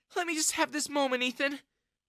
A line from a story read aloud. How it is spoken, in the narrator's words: Jessica sobbed